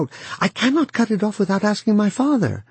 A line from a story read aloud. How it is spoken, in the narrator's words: Wang Lung cried out